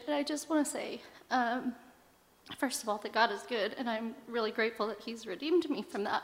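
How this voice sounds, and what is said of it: Emotional, choked-up voice. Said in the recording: “I don't know why I'm getting emotional”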